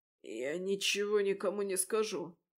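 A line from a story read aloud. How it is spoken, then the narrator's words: Hoarse promise. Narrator (Russian): хрипло пообещал Кензел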